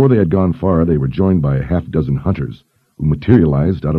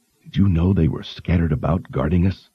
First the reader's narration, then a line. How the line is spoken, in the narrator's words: Kaelin whispered to Richard